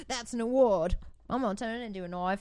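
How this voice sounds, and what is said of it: Australian accent, Crocodile Dundee style. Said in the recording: “Why is there an accent? ... Oh, that's from Crocodile Dundee.”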